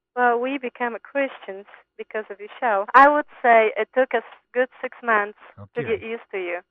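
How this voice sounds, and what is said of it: Polish accent. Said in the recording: “is from Poland. She has a great accent”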